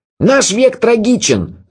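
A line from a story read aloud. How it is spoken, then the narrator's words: Shouting. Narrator (Russian): закричал Андре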